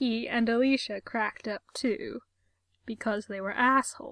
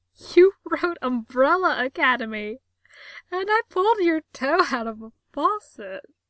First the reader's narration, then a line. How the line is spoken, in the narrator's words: started cracking up, managing to say between giggles